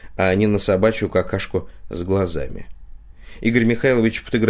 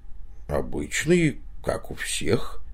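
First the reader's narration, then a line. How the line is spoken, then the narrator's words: Hoarse wheeze. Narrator (Russian): прохрипел он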